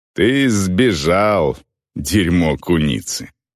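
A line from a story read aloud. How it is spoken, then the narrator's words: Growl. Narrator (Russian): рыкнул Вирк на Гудворра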